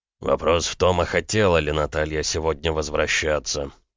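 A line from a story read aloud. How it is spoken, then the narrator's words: Muttered through teeth. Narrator (Russian): процедил Макеев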